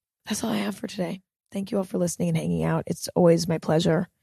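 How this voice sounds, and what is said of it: Particularly raspy voice. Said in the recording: “my raspy voice ... it's particularly raspy”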